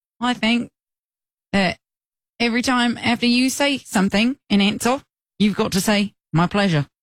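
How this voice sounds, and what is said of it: Attempted British accent, sounds Australian. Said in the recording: “It's still Australian. ... I can only talk in a British accent if I talk really light, like high-pitched.”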